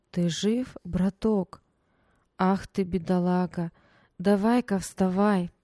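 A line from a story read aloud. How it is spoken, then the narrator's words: Soft, slightly husky, clear. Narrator (Russian): Мягкий, с легкой хрипотцой голос отчетливо произнес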